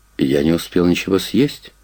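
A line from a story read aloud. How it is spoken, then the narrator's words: Gloomy remark. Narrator (Russian): Лещенко мрачно добавил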